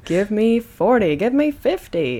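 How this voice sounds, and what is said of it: Game show announcer voice. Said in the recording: “announcer voice ... On the Price is Right?”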